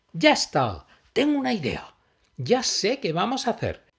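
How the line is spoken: Happy exclamation. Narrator (Spanish): exclamó Emma, muy contenta

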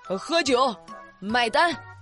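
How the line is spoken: Repeated shouting. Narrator (Chinese): 这大哥嘴里一直喊着

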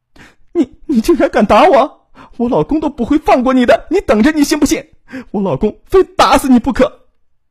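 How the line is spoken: Crying and shouting. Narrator (Chinese): 大哭大叫起来

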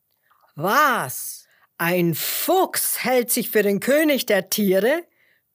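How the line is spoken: Lion roaring indignantly. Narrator (German): brüllte der Löwe empört

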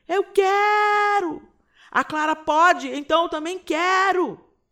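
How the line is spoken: Shout. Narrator (Portuguese): mais um grito

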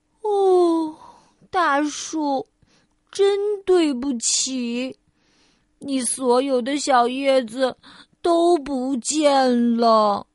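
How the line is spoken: Deep sigh, sorrowful. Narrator (Chinese): 菲儿深深的叹了口气

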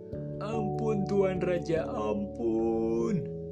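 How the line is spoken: Crying, pleading shout. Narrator (Indonesian): Tidak berhenti menangis, sang pelayan terus berteriak

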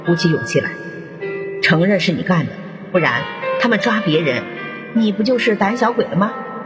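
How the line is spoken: Low, quiet voice. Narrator (Chinese): 卡罗娜低声的对卡洛菲说

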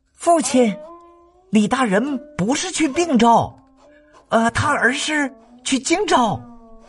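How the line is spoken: Loud. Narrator (Chinese): 司马昭大声对司马懿说

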